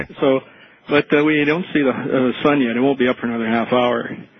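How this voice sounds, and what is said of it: Canadian accent. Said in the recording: “If I'm listening correctly to your accent, you are a Canadian.”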